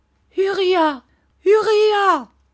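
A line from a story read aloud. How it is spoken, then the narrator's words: Mother shouting. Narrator (French): cria sa mère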